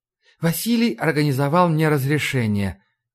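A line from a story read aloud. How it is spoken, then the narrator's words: Soft reply. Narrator (Russian): мягко ответила Ларри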